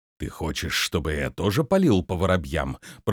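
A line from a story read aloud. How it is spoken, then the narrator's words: Growling. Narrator (Russian): прорычал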